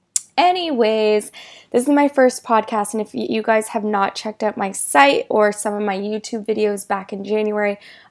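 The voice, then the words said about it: Sick-sounding voice. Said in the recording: “Excuse my voice. I've had terrible allergies this summer. ... I got this crazy cold or whatever allergies.”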